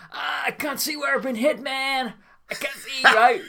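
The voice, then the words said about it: Put-on American accent. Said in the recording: “do I have an American accent? ... Yeah ... You hit America straight”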